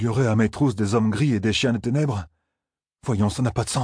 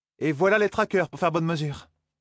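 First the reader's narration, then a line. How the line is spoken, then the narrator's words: Exclaimed. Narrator (French): s'écria Zarine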